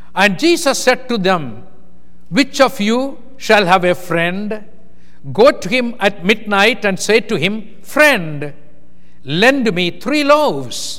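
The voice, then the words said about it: Indian-accented English, spoken slowly. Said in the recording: “I am a very fast speaker in India... I am trying to be slow, that you will understand me because of my different accent.”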